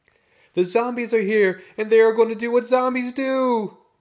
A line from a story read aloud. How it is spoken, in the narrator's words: Drew screamed out loud